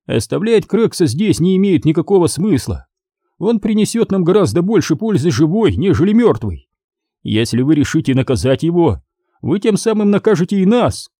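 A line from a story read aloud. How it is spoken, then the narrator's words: Quiet, pleasant voice. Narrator (Russian): сказал Стивенс своим негромким, приятным голосом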